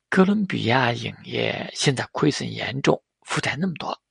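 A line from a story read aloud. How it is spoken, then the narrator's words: Muttering. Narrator (Chinese): 赵元熙还是嘟囔了一句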